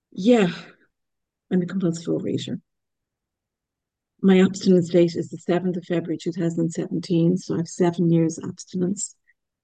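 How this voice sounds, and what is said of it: Irish accent, fast speech. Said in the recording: “I don't know if anyone can pick up my accent. I'm Irish, I'm in Ireland, and I know that I tend to speak quickly”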